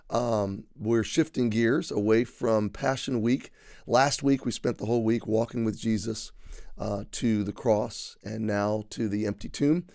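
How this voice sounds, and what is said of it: Voice still recovering, slightly worn. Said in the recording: “my voice is still recovering from yesterday. It may be a little bit of the pollen in the air as well.”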